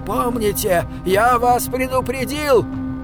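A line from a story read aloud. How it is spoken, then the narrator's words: Shout. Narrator (Russian): крикнул он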